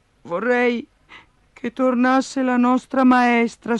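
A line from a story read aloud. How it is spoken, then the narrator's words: Sighing. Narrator (Italian): sospirò Giannina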